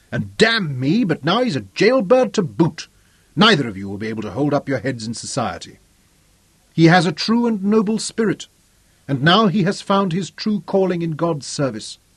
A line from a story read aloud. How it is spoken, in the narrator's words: Robin replied hotly